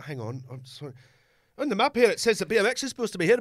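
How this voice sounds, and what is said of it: Put-on accent. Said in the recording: “Great accent.”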